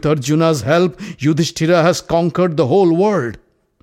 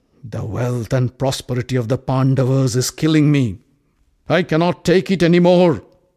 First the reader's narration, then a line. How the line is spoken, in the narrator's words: growled Duryodhana